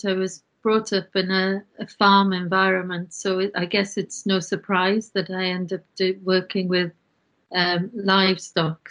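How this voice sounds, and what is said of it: Welsh accent. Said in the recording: “I'm from Wales. You can probably detect the accent.”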